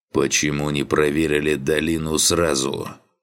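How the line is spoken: Growled. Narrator (Russian): рыкнул напарник Карваш

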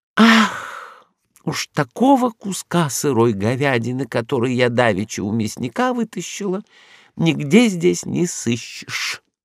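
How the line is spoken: Sigh. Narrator (Russian): вздохнула Рагуля

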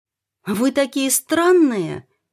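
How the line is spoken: Indignant exclamation. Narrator (Russian): возмущенно воскликнула Наташа

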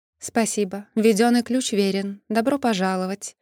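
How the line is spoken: Even, level tone. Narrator (Russian): Ровным тоном пригласила помощница

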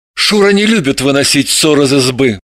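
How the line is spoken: Breathed out. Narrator (Russian): выдохнул он

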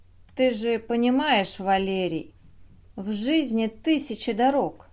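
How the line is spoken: Gentle. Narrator (Russian): мягко начал он

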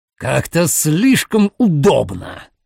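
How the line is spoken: Growl. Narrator (Russian): прорычал Форте

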